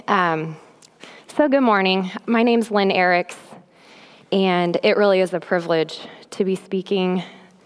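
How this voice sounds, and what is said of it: Congested, rough-sounding voice. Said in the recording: “I have a cold, ... I sound a lot worse than I feel”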